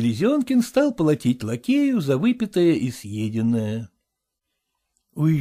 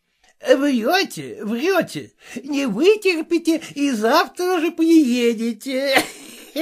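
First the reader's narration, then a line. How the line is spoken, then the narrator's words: Laughing. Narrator (Russian): сказал ему, смеясь, Хаперский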